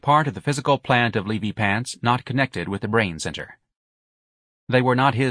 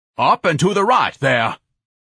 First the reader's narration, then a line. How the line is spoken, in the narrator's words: shouted down